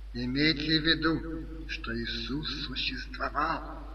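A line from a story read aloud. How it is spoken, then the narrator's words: Whispered. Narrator (Russian): профессор прошептал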